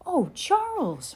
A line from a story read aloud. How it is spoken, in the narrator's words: Ma exclaimed